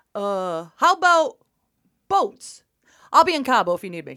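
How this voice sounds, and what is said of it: Put-on Hollywood idea man voice. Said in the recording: “impersonation of a successful Hollywood idea man ... Pretty accurate. Woo! Pretty accurate.”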